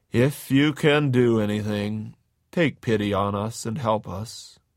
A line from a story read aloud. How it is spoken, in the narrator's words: he wearily said to Jesus